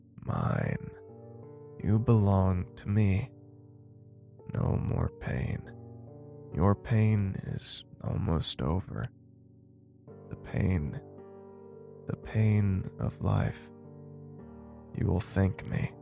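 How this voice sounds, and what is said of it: Raspy, deep voice. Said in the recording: “raspy, deep voice”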